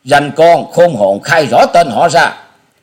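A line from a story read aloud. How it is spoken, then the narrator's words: Loud shouted demand. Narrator (Vietnamese): Một tên trong bọn lớn tiếng quát hỏi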